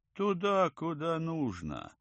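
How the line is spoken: Gloomy grumbling guide. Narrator (Russian): мрачно пробурчал проводник

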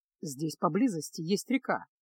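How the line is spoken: Calm. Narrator (Russian): спокойно произнес Кайл

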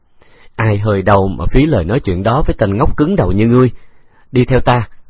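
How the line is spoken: Smiling reply. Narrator (Vietnamese): Từ Tử Lăng mỉm cười đáp

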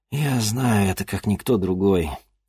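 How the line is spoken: Heavy sigh. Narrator (Russian): тяжело вздохнул

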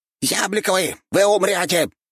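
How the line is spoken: Squeaked, giant rat. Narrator (Russian): пропищал 2,5-метровый крыс

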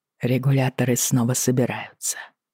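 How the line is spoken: Said quietly. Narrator (Russian): тихо произнес он

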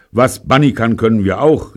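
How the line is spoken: Calling out. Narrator (German): rief Michael

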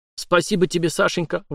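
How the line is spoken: Exclaimed. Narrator (Russian): воскликнул Витька

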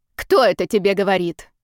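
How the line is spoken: Displeased snap. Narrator (Russian): недовольно огрызнулась женщина

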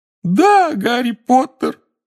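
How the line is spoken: Howled. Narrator (Russian): взвыл Добби

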